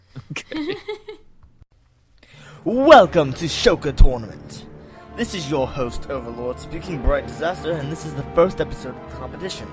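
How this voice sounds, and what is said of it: Put-on British accent. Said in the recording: “Why am I speaking in a British accent? Because I can. And it makes me sound sexy.”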